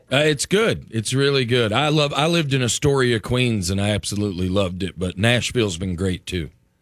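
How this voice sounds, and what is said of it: Southern American accent. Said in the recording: “You have a southern accent. ... I'm originally from Huntsville, Alabama.”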